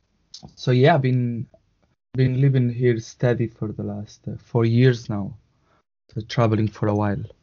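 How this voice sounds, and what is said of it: Latin-sounding accent. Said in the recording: “you had a Latin accent ... I could tell it was definitely a Latin accent.”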